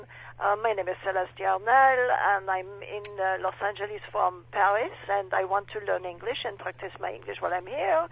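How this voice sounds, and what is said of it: Put-on French accent. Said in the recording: “you say that you're good with accents. You know, just how good is your French accent?”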